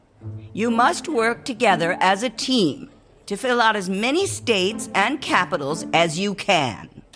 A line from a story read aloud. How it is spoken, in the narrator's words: Kim screeched